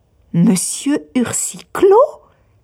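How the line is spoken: Exclaiming. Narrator (French): s'écria Miss Campbell

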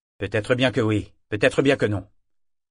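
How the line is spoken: Shrewd tone. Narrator (French): dit l'homme d'un ton avisé

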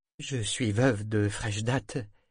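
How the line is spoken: Plain. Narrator (French): dit-elle

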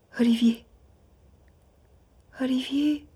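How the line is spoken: Murmured. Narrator (French): murmura-t-elle

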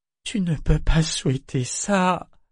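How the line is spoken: Moaned. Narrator (French): gémit-il

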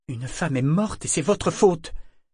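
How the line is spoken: Exclaimed. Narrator (French): s'exclama-t-il

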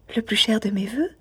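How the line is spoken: Murmuring to herself. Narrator (French): murmura Miss Campbell, comme si elle se fût répondue à elle-même

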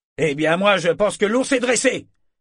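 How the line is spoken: Furious sailor. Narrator (French): déclara un marin d'un ton furieux

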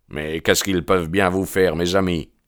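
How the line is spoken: Loud growling. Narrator (French): gronda MacMurdo d'une voix qui fit tourner toutes les têtes dans le compartiment

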